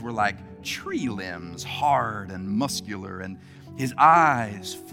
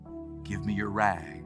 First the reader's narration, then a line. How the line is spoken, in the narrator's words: he said so gently